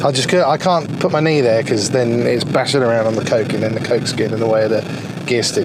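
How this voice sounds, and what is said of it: Talking very fast. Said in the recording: “I'm talking really fast. It's like I've just been on speed.”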